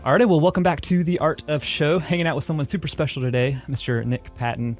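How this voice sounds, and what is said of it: Strong Southern US accent. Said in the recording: “I apologize about my accent, because I have a pretty strong southern one”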